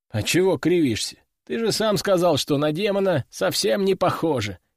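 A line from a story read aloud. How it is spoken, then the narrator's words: Chuckling. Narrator (Russian): хохотнул я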